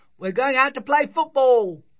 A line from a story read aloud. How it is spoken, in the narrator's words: they shouted